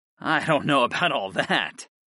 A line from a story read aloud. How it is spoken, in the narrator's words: scoffed